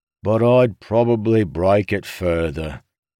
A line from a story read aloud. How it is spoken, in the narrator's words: Huyo sighed